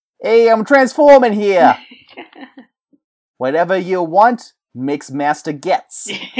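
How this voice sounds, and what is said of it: Brooklyn-accented cartoon robot voice. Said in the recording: “he had a Brooklyn accent ... his voice is very reminiscent of Joe Pesci's ... a lot of people can do a Joe Pesci accent or impression. Not always good, though.”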